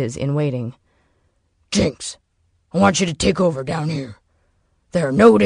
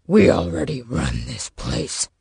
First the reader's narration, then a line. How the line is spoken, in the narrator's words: Knox growled